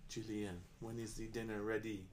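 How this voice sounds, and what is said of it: Put-on French accent. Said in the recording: “The craziest French accent.”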